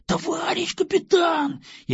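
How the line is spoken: Near-shout, then whisper. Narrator (Russian): едва не в голос закричал кабан, продолжил снова шепотом

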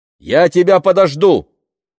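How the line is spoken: Shout after someone. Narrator (Russian): крикнула она ему вслед

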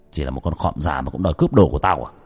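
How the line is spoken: Harsh sneering laugh. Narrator (Vietnamese): Người thanh niên cười gằn giọng

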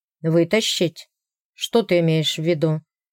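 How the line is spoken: Cold question. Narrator (Russian): Холодно спросил

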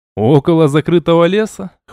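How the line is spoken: Snorting. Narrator (Russian): хмыкнул я

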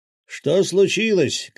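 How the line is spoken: Shout. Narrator (Russian): крикнул Васильич

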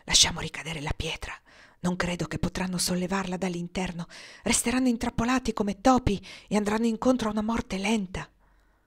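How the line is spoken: Whispered in ear. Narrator (Italian): Niaz gli sussurrò all'orecchio

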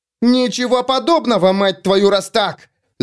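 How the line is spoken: Furious yell. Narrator (Russian): завопила Рикки

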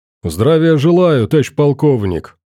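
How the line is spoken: Brisk barked greeting. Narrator (Russian): Бодро гаркнул гость

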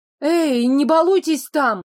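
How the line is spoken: Silent inner shout. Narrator (Russian): закричала в уме

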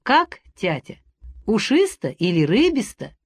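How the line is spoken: Cheerful question. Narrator (Russian): Варя весело спрашивала

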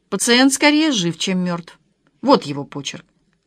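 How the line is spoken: Thoughtful. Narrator (Russian): Лада сказала задумчиво

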